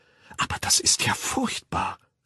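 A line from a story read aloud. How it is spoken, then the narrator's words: Whispered. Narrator (German): flüsterte Lenina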